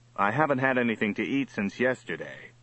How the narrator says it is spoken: said Johnny

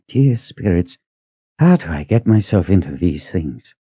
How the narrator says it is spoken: He let out a sigh

